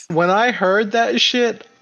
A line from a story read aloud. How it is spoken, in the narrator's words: I cried